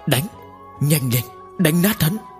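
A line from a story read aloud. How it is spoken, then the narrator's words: Hoarse, strained voice. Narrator (Vietnamese): Tần Mục khó khăn ngẩng đầu, giọng nói khàn khàn nói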